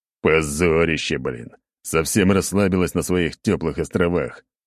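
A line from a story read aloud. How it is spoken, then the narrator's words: Grumbling. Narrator (Russian): ворчал я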